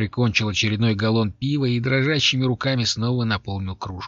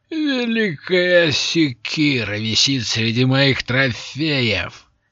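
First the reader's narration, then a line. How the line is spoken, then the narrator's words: Wild laughter. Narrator (Russian): дико захохотал Лот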